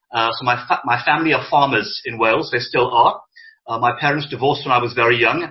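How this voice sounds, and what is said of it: Welsh lilt. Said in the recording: “if you can hear a lilt in my voice, I'm actually Welsh by birth”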